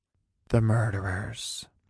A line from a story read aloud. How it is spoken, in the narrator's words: I whispered back